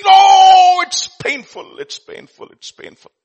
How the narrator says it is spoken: there was a pain that went down its trunk, and it shrieked

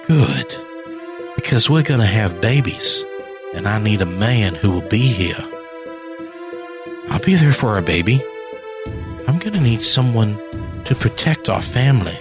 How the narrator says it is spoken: said

